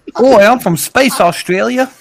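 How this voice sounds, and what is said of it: Poor put-on Australian accent. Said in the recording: “That's a little bit of a shit Aussie accent ... You sound like you went from trying to be Aussie to like a island.”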